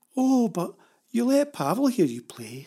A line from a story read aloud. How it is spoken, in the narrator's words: said Sandy, in a kind of pouting, pleading baby voice